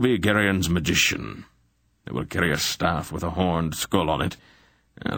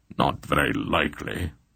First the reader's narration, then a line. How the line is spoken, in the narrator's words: Belgaroth grunted in reply